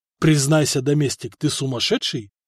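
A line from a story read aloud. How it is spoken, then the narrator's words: Quiet question. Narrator (Russian): все так же тихо спросил брат императора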